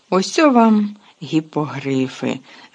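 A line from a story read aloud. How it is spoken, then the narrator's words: Joyful exclamation. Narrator (Ukrainian): радісно вигукнув Гегрід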